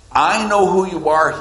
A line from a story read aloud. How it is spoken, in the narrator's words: said